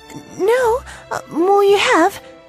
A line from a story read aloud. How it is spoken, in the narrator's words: she stammered